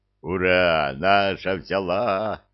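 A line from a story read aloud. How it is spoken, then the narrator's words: Joyful troll roar. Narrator (Russian): радостно взревел тролль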